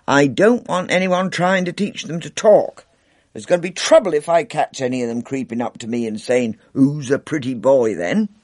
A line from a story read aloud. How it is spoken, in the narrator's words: he said sternly